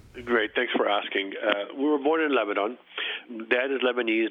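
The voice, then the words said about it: French accent. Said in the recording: “I detect the French accent in your voice”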